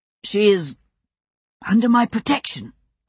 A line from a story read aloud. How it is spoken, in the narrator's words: William said, as firmly as he could